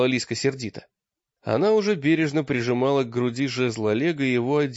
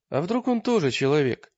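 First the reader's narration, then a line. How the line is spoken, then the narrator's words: Sad question. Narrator (Russian): спросил Таргитай печально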